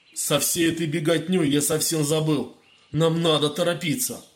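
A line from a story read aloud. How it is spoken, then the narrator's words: Barked order. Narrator (Russian): Маг рявкнул на собравшихся слуг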